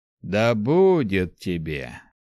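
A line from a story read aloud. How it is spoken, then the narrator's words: Calm stranger. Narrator (Russian): спокойно проговорил незнакомец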